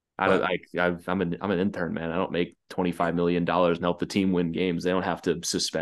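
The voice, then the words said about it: Tired, flat-sounding voice. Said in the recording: “if you're wondering why my voice sounds dead”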